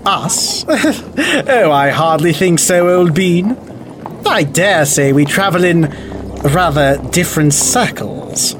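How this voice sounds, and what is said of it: Affected put-on accent. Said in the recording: “that affected accent”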